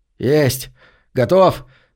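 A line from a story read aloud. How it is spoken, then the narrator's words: Triumphant bark. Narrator (Russian): торжествующе гаркнул Деннис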